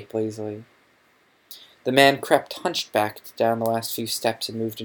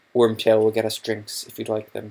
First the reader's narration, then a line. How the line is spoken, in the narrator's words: said Snape